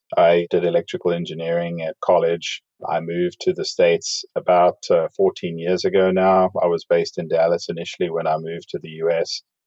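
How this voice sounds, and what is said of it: South African accent. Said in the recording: “as you can probably tell from the accent, I didn't grow up in the United States. I grew up in South Africa.”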